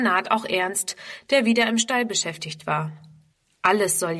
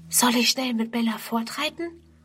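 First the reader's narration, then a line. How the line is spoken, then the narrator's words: Close whisper. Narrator (German): flüstert ihm Friedrun zu, die dicht an ihn herangetreten ist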